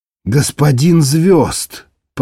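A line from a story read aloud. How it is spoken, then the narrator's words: Hissed. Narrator (Russian): прошипела Виалла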